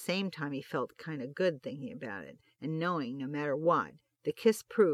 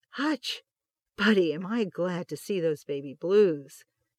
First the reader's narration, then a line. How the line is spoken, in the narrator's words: exclaimed